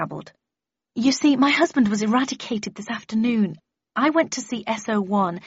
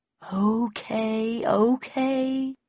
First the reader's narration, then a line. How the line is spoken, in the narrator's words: said Bowden in a soothing voice